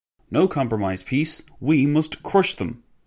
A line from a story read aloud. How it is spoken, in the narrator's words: exclaimed a former minister of public works